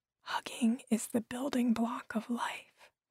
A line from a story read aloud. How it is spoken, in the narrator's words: I whispered